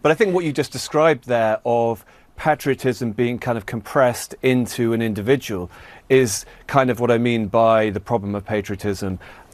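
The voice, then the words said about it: British accent. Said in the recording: “the perils of a British accent”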